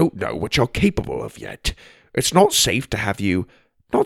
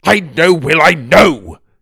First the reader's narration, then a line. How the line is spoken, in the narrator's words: Das snapped, practically shaking now he was so overwhelmed